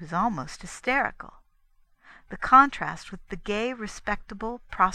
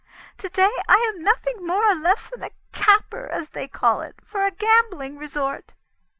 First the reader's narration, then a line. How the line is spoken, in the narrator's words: she cried